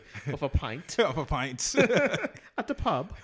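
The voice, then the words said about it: Poor put-on posh British accent. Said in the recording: “My British accent is terrible... It sounds like a cheeky ass, like posh white dude.”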